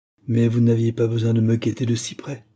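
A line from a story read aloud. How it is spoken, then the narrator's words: Man's brusque tone. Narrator (French): ajouta l'homme d'un ton brusque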